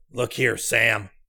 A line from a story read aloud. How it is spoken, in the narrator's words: he said gruffly but in a low voice